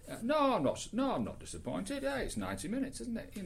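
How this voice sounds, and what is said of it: Poor put-on Geordie accent. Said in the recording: “has he come from Yorkshire? ... My Geordie accent is so bad, and I shouldn't even have attempted it.”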